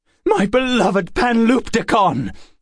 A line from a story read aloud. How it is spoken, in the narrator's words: he cried